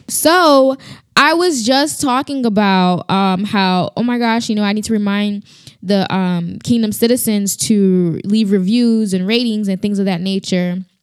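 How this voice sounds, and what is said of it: Congested, strained voice. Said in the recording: “pray for me and my voice and the sinus or whatever I got going on ... me clearing my throat is hurting it”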